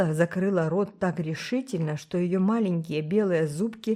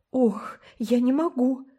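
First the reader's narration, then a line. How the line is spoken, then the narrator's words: Stunned moan. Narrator (Russian): простонала ошеломленная Миранда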